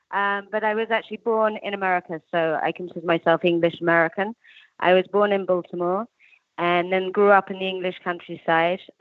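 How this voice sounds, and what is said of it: English accent. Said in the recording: “you can tell from my accent, I'm English”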